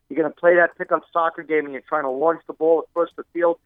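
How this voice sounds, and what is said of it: Speaks with a noticeable accent. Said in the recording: “I love the accent.”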